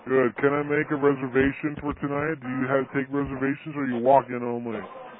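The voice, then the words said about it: Put-on deep voice. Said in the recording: “We're using a deep voice”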